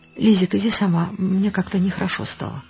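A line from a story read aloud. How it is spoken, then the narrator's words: Quiet. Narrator (Russian): сказала ей тихо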